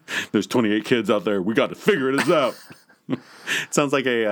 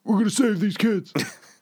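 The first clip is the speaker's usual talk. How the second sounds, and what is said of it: Imitates another person's voice. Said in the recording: “best Rock impression I've ever heard... It wasn't good... It was like Obama's Rock impression... like Obama and Rodney Dangerfield had a kid”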